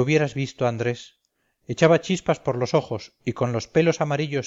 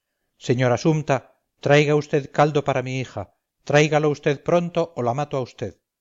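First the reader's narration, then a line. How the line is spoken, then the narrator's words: Frantic doctor shouting. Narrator (Spanish): el médico parecía loco y todo se le volvía a gritar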